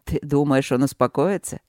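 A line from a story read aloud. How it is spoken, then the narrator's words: Chuckle. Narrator (Russian): хохотнул Чет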